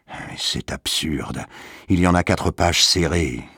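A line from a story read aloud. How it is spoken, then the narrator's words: Grumbling. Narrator (French): grogna M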